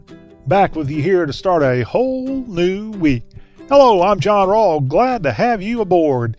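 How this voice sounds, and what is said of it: Southern US accent. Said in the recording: “Whether you talk with a southern accent, kind of like me, I got a pretty good accent, but there's people who have much better southern accents than me.”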